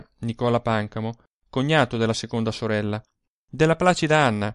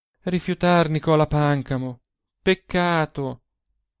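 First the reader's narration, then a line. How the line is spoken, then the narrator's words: Youngest sister sighing. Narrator (Italian): Maria, la più piccola delle tre, sospirava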